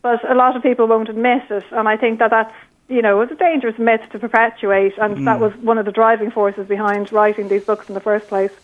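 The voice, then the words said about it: Irish accent. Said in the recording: “there's not a peep or a peak of a London accent on that Irish accent”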